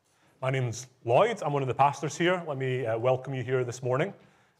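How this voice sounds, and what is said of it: Scottish Glasgow accent. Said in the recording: “I sound a little different ... that's where I'm from ... I am Chinese and Scottish”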